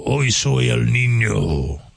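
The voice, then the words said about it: Bad put-on Spanish accent. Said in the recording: “that's a horrible Spanish accent ... Supposed to be Chris Farley.”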